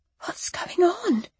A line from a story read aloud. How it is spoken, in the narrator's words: I whispered